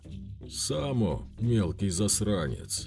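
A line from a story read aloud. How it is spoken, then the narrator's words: Furious merchant's growl. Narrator (Russian): прорычал разъяренный купец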